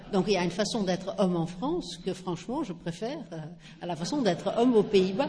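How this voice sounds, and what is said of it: Slight Dutch accent in French. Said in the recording (French): “je ne suis pas française ... elle traîne un petit accent ... Je suis originaire des Pays-Bas.”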